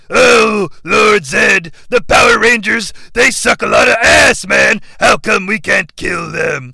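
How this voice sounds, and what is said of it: Gruff villain character voice. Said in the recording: “I like doing his voice”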